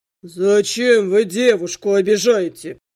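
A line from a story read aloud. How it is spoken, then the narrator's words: Deep bass voice. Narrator (Russian): пробасил начальник патруля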